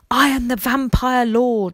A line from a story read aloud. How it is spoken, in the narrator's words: yelled